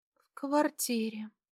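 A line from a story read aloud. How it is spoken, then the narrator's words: Sleepy. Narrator (Russian): сонно ответила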